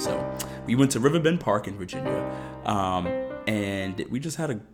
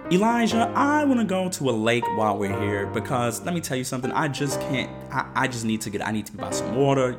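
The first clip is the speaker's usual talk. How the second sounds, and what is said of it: Imitates another person's voice. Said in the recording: “I'm gonna imitate her voice. You know, you guys love my imitation.”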